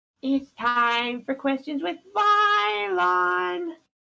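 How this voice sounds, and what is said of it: Character voice impression. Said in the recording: “your best pencil impression ... That was really good!”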